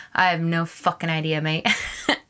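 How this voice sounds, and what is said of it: Put-on British accent. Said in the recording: “In a British accent.”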